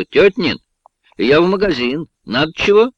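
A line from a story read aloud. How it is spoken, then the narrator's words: Shouting. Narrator (Russian): У входных дверей Катерина крикнула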